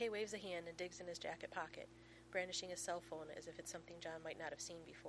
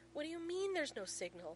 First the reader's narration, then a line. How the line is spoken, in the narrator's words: McKay splutters